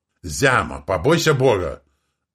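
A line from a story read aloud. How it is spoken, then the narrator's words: Menacing shout. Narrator (Russian): Женщина-кит выкрикнула это с такой угрозой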